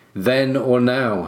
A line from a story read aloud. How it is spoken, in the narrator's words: said Sir Arthur